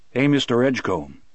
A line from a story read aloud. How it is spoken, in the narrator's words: said